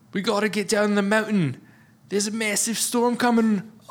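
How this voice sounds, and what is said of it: Weak Australian accent, Jason Clarke impression. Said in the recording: “Jason Clark has an Australian accent in this movie ... do an Australian impression or like a different impression, you guys know I'm not very good at it”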